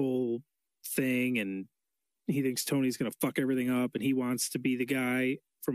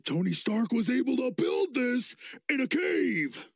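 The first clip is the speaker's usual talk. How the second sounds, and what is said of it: Impression of a movie villain's voice. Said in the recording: “That's a very good Obadiah Stane impression.”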